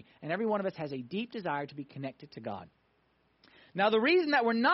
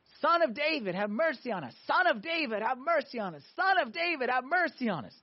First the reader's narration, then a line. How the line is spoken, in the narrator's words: They started screaming to Jesus